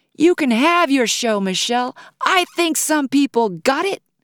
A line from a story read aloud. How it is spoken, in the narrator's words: A woman in the back of the room yelled